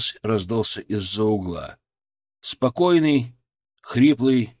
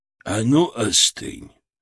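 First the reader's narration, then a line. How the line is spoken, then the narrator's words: Plain. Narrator (Russian): сказал старик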